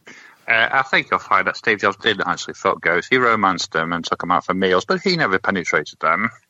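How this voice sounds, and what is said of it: Nerdy character voice. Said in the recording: “That was a very good accent. ... Is he Michael Caine? ... that was my nerd voice.”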